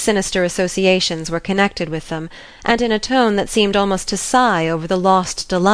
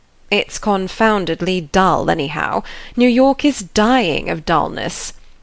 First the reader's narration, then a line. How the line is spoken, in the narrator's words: Beaufort grumbled